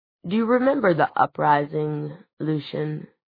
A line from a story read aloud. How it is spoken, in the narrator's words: He said softly